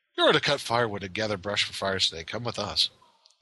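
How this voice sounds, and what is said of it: Put-on British accent. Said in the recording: “apparently the orc had a British accent that day”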